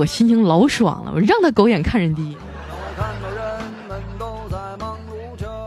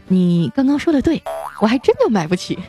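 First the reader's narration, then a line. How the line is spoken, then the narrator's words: Slight smile. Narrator (Chinese): 我微微一笑啊，跟他说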